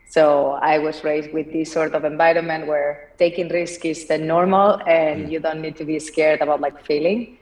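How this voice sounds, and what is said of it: Spanish accent from Barcelona. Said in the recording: “as you can tell from my accent, I'm not from here. I'm from Barcelona.”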